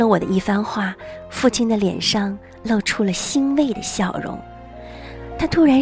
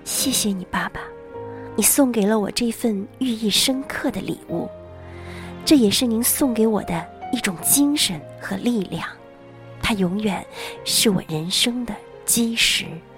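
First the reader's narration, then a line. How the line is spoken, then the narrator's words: Murmuring. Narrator (Chinese): 我喃喃地说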